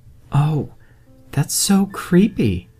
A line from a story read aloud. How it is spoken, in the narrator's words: cried Jenny